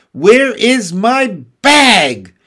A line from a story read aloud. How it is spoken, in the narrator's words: shouted Mr